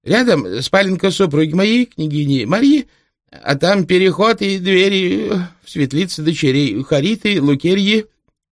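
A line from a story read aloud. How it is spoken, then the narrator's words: Sobbing. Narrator (Russian): всхлипнул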